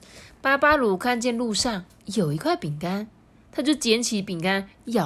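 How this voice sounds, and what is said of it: Usual voice. Nothing is said of it.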